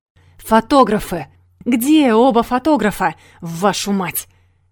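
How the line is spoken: Booming bass from behind. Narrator (Russian): прогремел сзади бас Воронцова

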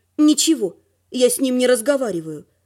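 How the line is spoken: Gloomy female voice. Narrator (Russian): мрачно сказала я

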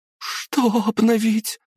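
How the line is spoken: Trembling voice. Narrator (Russian): дрожащим голосом спросила актриса Хельга

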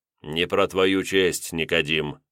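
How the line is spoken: Snorting remark. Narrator (Russian): хмыкнул я

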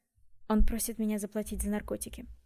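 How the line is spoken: Cold. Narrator (Russian): холодно ответил Джем

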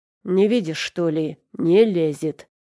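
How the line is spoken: Growling. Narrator (Russian): прорычал он

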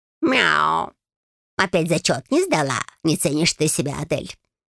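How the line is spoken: Purring. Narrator (Russian): Промурлыкала ручка

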